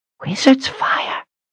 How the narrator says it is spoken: Pasha whispered incredulously

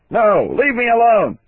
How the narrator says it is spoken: shouted

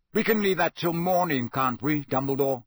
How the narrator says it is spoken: said Sirius harshly

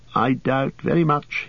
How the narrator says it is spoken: he said

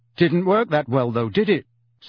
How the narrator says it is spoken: said Harry, doing his utmost to keep his voice even

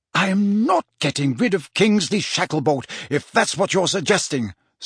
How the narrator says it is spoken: said the Prime Minister hotly

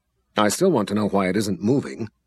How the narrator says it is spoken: Delora growled from behind

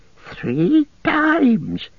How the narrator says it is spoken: he whimpered

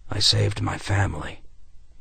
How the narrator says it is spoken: he said softly

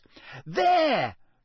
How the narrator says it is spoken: yelled a sixth year

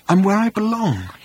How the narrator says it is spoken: he said in an emotional whisper

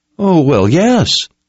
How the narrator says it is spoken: Owen stammered

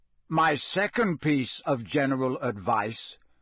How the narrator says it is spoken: said Moody loudly, interrupting him

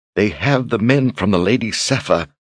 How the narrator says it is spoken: her voice faltered

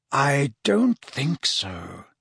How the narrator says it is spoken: said Dumbledore quietly

